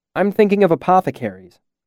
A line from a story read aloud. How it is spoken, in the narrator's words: I said quickly